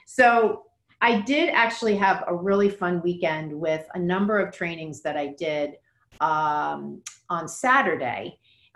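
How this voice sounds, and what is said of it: Slightly hoarse voice. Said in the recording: “my voice is a little bit hoarse, because I was talking quite a bit on Saturday”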